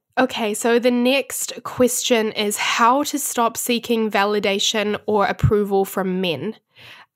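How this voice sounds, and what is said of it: Sick, congested voice with breathing pauses. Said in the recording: “I'm still quite a little bit sick, so I keep having to pause to kind of like breathe and blow my nose ... sorry about my voice ... pausing a little bit to breathe”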